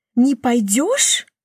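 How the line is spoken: Growl-like sound. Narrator (Russian): Она издает звук, похожий на рычание

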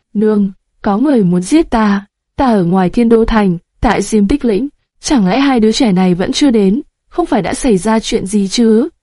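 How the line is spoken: Trembling voice after silence. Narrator (Vietnamese): Hắn im lặng rất lâu, cuối cùng âm thanh run rẩy cất lên

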